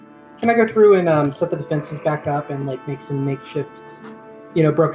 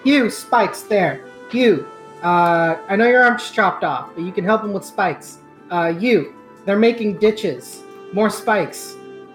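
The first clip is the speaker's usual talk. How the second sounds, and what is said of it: Commanding drill instructor voice. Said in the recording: “in my instructor voice”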